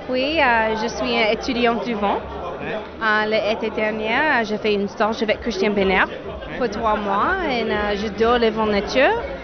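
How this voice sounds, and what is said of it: Slight American accent in French. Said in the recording (French): “Ce petit accent me plaît bien”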